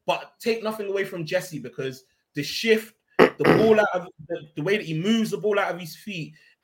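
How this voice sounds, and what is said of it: Hoarse, nearly lost voice. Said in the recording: “I know you lot can hear my voice is gone, bro. It's gone.”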